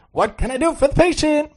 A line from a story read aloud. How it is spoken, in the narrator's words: asked cheerfully